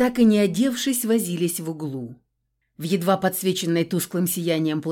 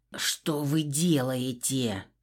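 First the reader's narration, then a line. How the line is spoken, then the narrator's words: Exasperated hiss. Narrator (Russian): зашипел адмирал, мысленно явно проклиная весь женский род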